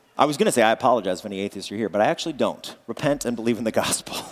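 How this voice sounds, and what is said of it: Usual voice. Nothing is said of it.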